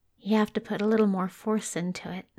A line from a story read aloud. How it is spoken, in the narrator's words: he mumbled